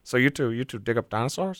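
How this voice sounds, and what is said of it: Jeff Goldblum impression. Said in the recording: “I can do his voice. I can't do the laugh. ... Jeff Goldblum does have a very unique voice, so it's hard to mimic because it's like, it's odd.”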